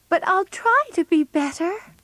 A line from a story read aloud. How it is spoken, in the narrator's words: she cried